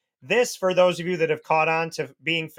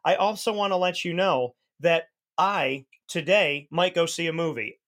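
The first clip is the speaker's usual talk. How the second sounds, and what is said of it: Drawn-out, sarcastic TV host imitation. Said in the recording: “my greatest impression of Ryan Seacrest ... drag it out ... facetious, sarcastic”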